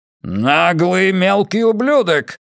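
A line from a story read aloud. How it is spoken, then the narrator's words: Growled. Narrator (Russian): рыкнул Хаскель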